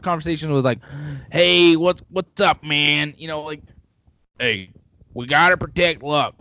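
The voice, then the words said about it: Imitates another person's voice. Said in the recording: “doing an awful impersonation”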